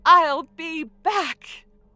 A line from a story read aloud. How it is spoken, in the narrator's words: Alma shouted in defiance to the whole courtroom